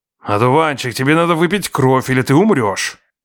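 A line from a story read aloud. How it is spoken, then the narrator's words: Muffled growl through door. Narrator (Russian): прорычал за дверью мой убийца, Марвейн Денуарет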